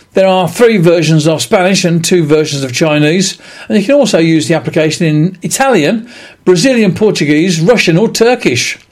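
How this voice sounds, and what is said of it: British English accent. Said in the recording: “I speak with a British English accent.”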